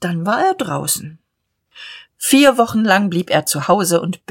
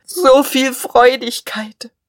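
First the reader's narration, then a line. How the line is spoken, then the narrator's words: Sobbing. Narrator (German): er schluchzte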